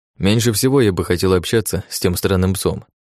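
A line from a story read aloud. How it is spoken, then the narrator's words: Sighing. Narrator (Russian): вздохнув, сказал он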